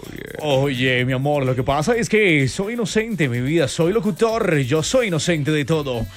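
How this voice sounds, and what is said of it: Put-on radio announcer voice. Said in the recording (Spanish): “sacamos nuestra voz de locutor”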